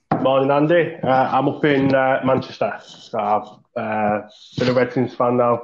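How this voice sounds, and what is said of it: Northern English accent. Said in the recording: “your accent. ... northern farmer”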